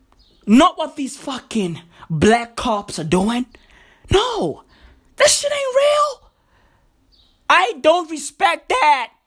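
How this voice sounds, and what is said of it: Voice breaking, strained ranting. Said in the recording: “My voice is even breaking ... My voice is fucking breaking because I'm fucking preaching”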